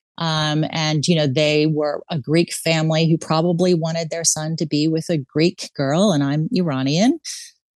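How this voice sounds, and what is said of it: American accent. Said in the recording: “as you can probably hear from my accent, I'm from the U.S.”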